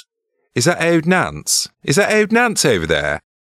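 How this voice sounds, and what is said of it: Posh Midlands accent. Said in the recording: “You could maybe do it in a Midland ... posh Midlands ... A Midlands accent ... That's the poshest guy in the Midlands”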